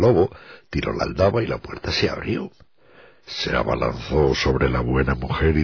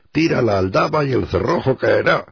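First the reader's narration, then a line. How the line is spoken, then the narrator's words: Ailing grandmother calling out. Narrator (Spanish): La cándida abuela, que estaba en la cama porque no se sentía bien, le gritó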